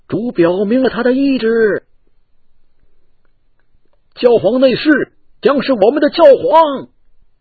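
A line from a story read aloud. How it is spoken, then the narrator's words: Startled group cry. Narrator (Chinese): 其他人惊叫道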